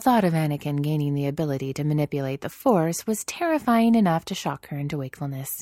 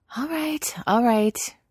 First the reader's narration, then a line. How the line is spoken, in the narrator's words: Ahsoka groaned